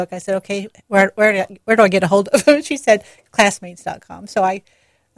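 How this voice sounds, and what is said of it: Slight southern American accent. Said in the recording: “I wouldn't say accent, but I can tell a little southern accent”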